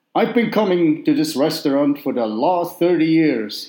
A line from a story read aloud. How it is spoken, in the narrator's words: he bellowed